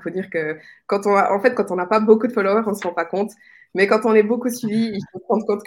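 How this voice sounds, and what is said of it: Swiss French accent. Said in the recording (French): “ton accent suisse là, le y a de tout”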